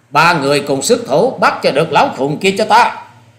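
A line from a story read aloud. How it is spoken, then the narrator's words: Loud commanding bark. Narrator (Vietnamese): Hà Xà Tiên Tử quát lớn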